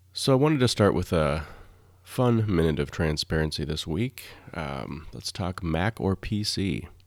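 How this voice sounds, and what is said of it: Low, scratchy voice. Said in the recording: “my voice. It may be a little strange, a little scratchy today ... my voice is a little low, a little scratchy”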